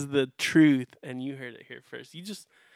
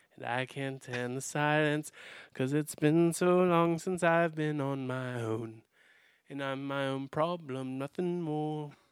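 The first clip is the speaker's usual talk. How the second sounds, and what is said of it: Sings in a put-on British accent. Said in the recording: “How about that, that accent, though? ... That was good ... Do you think I could pass ... I just wonder if my accent would pass ... us as Americans think we can do great British accents”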